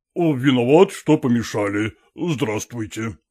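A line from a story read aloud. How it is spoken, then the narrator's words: Student's deep bass. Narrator (Russian): пробасил студент Глинков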